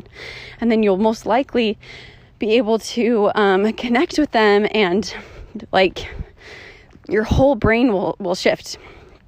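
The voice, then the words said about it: Out of breath while walking. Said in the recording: “why am I so out of breath on my walk?”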